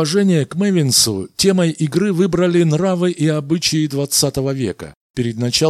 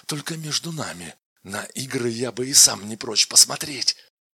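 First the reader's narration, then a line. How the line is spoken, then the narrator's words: Quiet, confidential. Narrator (Russian): он тихонько добавил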